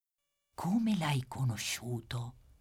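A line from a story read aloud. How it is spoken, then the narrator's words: Quiet question. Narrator (Italian): chiede Armando sottovoce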